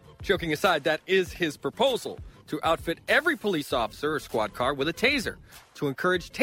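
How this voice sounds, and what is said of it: Usual voice. Nothing is said of it.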